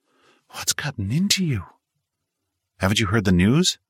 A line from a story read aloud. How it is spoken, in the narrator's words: she breathlessly asked